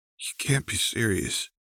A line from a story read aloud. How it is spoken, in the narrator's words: he said in a strained voice, the distress evident